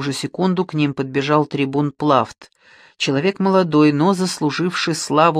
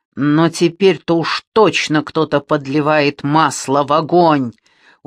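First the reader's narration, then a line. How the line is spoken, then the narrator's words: Convinced hiss. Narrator (Russian): убежденно прошипел военачальник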